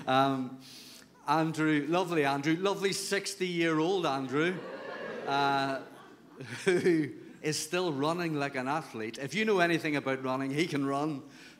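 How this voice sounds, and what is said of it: Speaks with a noticeable accent. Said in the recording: “People tell me I have an accent”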